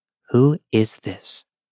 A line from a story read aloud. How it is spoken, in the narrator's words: Nervously, my mom asks